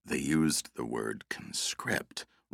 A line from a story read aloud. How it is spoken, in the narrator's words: Russ explained quietly